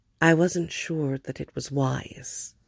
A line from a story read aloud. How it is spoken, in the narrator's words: Diana said, gently confessional